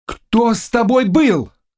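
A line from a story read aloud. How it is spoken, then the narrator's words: Frantic shouting. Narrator (Russian): кричал Кшитузский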